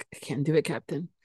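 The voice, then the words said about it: Scottish accent, Scotty from Star Trek. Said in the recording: “Scottish accent's heavy ... Then I hear Scotty from Star Trek.”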